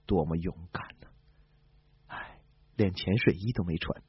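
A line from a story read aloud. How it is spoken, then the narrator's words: Admiring exclamation. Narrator (Chinese): 海军参谋长感叹道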